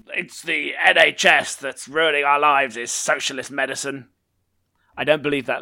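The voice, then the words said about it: Mocking impression of a reactionary Brit. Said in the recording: “doing an impression of a person who, Gammon. yeah, doesn't, doesn't understand how the NHS works”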